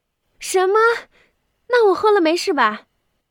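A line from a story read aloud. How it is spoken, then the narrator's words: Sudden shout. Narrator (Chinese): 他忽然的大叫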